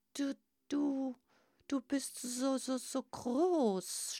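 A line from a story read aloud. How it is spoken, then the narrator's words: Stammering. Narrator (German): stotterte Grasper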